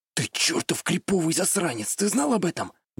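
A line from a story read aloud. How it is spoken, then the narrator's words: Impressed whisper. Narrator (Russian): Действительно впечатленным тоном прошептал я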